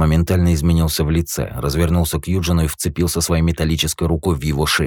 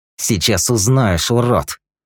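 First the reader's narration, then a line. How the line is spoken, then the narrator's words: Through gritted teeth. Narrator (Russian): процедил Эрза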